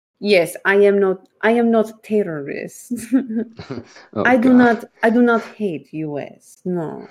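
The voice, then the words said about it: Put-on Italian vampire accent. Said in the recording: “I don't know why I'm using an accent. ... all of a sudden I'm like an Italian vampire.”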